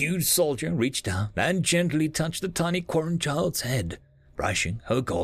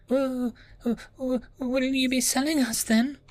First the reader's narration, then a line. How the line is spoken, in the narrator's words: whimpered Nira